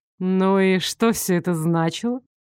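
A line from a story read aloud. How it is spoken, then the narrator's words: Purring. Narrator (Russian): мурлыкнул Элмер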